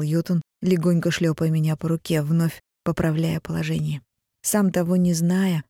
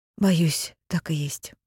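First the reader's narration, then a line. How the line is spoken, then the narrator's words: Sighing. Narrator (Russian): вздохнула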